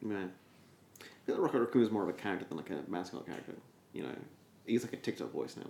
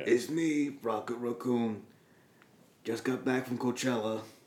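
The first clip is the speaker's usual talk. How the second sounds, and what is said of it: Imitates an obnoxious character voice. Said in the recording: “was that fucking Bradley Cooper? ... Doing that obnoxious fucking voice ... doing the voice”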